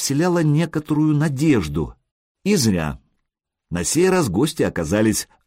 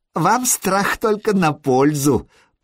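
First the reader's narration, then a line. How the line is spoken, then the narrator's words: Giggle. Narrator (Russian): Прорвич хихикнул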